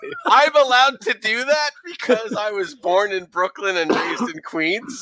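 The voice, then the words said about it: Exaggerated New York accent. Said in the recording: “this is the way we really talk in New York when we're not trying to cover up the accent. I'm just leaning into it. ... This is pretty much our New York accent when we lean into it.”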